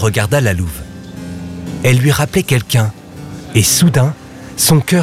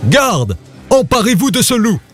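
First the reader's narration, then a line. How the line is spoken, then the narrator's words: Jealous furious shout. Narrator (French): hurla le roi jaloux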